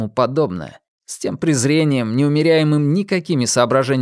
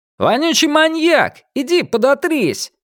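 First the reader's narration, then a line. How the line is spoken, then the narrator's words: Group yelling. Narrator (Russian): и другие игроки заорали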